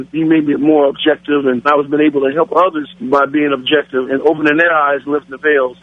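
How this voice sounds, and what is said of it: Black American accent. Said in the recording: “As you can tell by my voice, Father, I'm a black American.”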